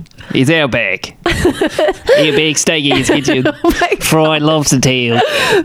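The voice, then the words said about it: Very bad put-on Australian accent. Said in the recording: “That is maybe the worst accent I've ever heard in my life. you're pretty terrible at accents.”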